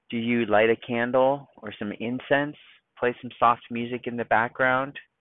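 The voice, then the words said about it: Calm, soothing voice. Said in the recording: “if I talk in a calm voice, maybe you too will feel more calm”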